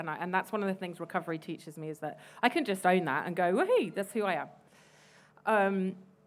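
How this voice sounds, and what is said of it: Posh English accent. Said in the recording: “You can probably tell from my accent that I'm a little bit posh”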